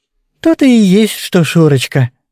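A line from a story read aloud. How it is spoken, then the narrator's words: Affectionate drawl. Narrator (Russian): ласково протянула Матрёша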